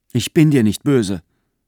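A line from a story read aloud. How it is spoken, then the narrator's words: Plain. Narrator (German): sagte K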